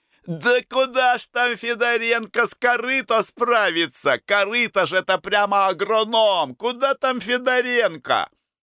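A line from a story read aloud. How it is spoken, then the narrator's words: Shouting. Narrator (Russian): Хлопцы кричали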